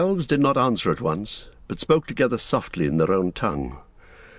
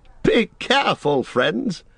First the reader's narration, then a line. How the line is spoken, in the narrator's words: cried Gildor, laughing